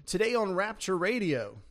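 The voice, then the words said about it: Announcer-style radio voice. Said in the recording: “radio voice. Radio voice.”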